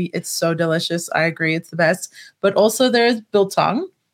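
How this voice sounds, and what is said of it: South African accent. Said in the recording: “did anyone guess your accent yet? ... South Africa.”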